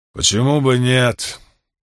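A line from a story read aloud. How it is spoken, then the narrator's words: Angry grumble. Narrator (Russian): сердито пробурчал Карбон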